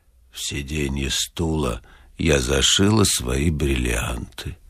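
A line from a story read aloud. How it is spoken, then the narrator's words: Wooden, indifferent voice. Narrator (Russian): Клавдия Ивановна деревянным равнодушным голосом сказала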